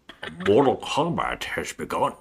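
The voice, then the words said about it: Bad Scottish actor impression. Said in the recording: “Can you do a Sean Connery accent, but like a Raiden line?... It's terrible... That was really... Bad.”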